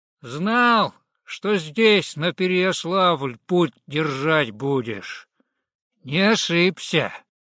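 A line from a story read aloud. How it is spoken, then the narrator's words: Loud. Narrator (Russian): громко произнес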